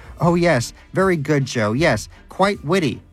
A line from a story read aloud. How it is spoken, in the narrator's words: shouted Danish